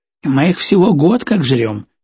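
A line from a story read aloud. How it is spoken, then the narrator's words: Scoffed. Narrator (Russian): хмыкнул повар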